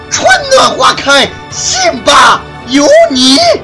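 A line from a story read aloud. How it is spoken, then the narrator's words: Loud shout. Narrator (Chinese): 高喊一声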